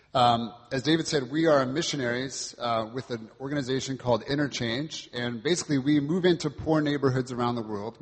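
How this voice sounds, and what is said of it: American accent, Californian. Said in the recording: “you may detect an American accent. I'm originally from California.”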